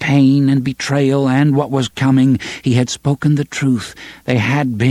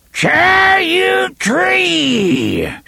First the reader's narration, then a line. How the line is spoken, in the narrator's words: She screamed in her rusty old voice